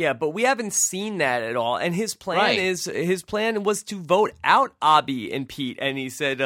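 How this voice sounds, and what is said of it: Usual voice. Nothing is said of it.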